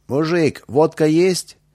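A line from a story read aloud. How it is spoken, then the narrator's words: Shout. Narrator (Russian): один из них крикнул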